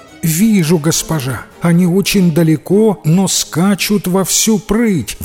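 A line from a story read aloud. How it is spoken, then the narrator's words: Young girl exclaiming. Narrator (Russian): воскликнула пастушка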